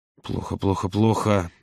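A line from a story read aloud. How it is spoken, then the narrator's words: Muttering. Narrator (Russian): забормотал Володя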